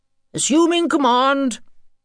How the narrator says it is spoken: cried Senior Engineering Officer Gizmo pompously

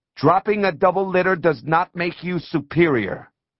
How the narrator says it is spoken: Eyes wet, she yelled

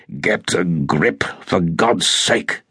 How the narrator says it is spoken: growled

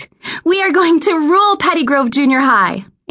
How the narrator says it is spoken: shouted back

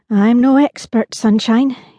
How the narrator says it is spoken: he replied

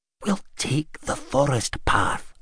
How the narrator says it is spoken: Gad whispered

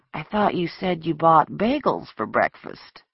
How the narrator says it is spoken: murmured sleepily

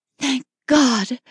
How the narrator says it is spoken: her whisper was ragged

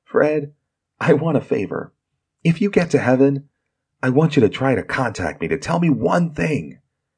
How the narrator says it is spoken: As Fred lay dying, Thomas whispered in his ear

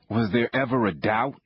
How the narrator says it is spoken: Andre asked

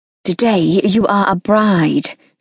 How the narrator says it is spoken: said Henny hoarsely

